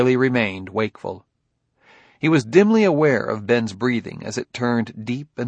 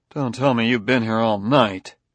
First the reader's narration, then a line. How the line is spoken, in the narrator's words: The commissioner grunted